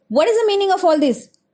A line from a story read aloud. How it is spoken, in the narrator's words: shouted Baddy